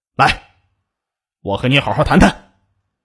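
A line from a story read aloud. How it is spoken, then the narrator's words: Angry. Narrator (Chinese): 肖丽健满脸怒气的对张丽红说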